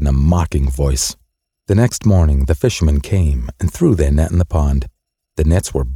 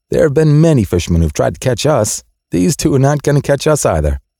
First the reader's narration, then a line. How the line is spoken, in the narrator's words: the fish just laughed and said